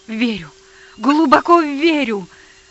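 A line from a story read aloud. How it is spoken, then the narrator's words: Tearful exclamation. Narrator (Russian): я воскликнул со слезами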